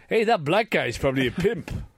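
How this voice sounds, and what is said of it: Put-on accent. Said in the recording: “What was that accent? What was that accent?”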